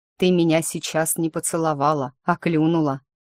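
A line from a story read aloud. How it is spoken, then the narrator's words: Amused snort. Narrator (Russian): хмыкнул наследничек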